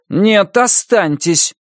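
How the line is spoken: Loud statement. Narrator (Russian): громко произнес Брезыч

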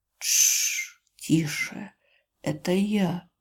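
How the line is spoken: Barely audible soothing. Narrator (Russian): едва слышно успокаивает

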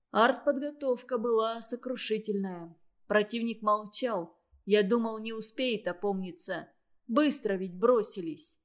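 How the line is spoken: Quiet. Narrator (Russian): тихо сказал Степанов

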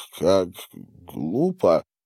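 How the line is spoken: Mutter. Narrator (Russian): пробормотал

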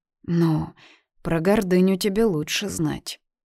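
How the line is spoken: Plain. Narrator (Russian): наконец ответила она

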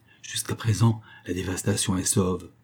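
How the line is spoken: Murmured. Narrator (French): murmura Omal

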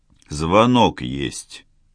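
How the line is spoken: Gruff grumble. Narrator (Russian): буркнул кто-то

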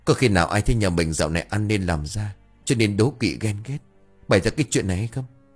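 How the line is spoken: Trembling voice. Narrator (Vietnamese): Bà Xuyến run rẩy bảo

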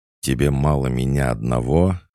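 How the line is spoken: Furious growl. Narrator (Russian): разъяренно прорычал Никита

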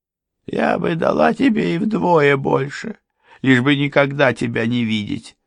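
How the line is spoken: Sobbing. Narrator (Russian): всхлипнула Мария

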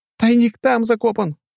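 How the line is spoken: Squeaky. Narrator (Russian): пропищал Петьке Свисток

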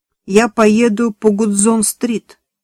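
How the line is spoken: Plain. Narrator (Russian): сказал водитель

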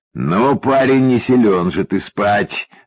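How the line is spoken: Concluding. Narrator (Russian): заключил счастливчик

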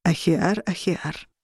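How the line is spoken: Soft, sand-rustling voice. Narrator (Russian): произнес он мягким голосом, схожим с шуршанием песка

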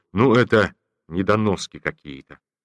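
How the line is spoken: Disgusted. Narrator (Russian): он сказал с отвращением

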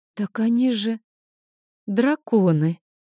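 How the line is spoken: Frightened breathy gasp. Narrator (Russian): испуганно выдохнула девушка

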